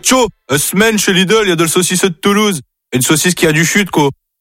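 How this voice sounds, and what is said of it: Put-on Northern French accent. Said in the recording (French): “avec un accent du Nord”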